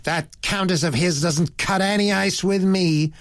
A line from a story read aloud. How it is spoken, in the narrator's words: said the girl in a rather high, shrill voice